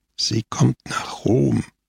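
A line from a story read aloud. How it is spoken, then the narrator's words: Quiet continuation. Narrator (German): fuhr Scamoggia leise fort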